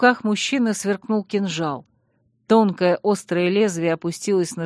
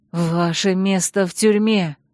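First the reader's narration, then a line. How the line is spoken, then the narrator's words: Hoarse, strained from shouting. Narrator (Russian): прохрипела я осевшим от крика голосом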